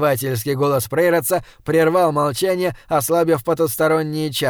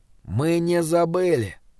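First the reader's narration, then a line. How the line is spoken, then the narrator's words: Quiet yet far-carrying voice. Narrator (Russian): сказал он тихо, но его голос донесся даже до спящего Годвига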